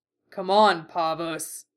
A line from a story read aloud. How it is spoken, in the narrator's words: the bull growled, his deep voice rough and carnal